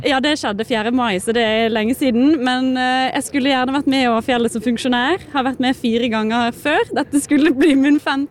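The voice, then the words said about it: Bergen dialect. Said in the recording (Norwegian): “Vi får litt bergensdialekt da.”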